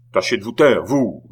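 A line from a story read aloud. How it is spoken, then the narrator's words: Yelling. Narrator (French): vociféra Beausire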